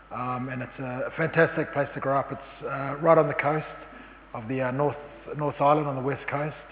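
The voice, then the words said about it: New Zealand accent. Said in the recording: “Probably from the accent you can tell that I'm from New Zealand.”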